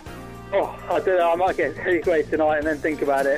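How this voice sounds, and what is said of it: Manchester English accent. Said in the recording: “you're obviously from the Manchester area, we can tell from your voice.”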